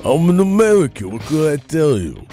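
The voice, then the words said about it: Deliberately bad Rocky character impression. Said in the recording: “my very bad Rocky impression”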